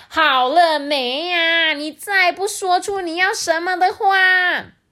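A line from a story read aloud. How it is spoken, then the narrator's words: Impatient shout. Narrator (Chinese): 仙女就大叫说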